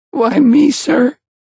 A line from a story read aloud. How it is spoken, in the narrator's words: squeaked Ralph